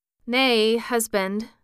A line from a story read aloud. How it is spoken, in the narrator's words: said the woman, quite anxiously